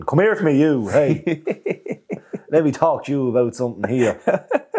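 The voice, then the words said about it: Big, loud Meath Irish accent. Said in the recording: “His big, loud, mead accent.”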